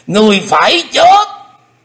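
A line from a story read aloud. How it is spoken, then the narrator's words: Demonic loud roar. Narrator (Vietnamese): Xích phát âm ma gầm to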